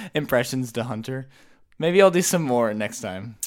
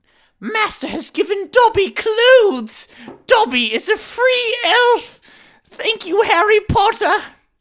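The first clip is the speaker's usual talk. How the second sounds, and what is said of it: Impression of Dobby the elf. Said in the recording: “I can also do a really good Dobby impression ... But I can do a really good Dobby ... That's actually really good ... That was really good.”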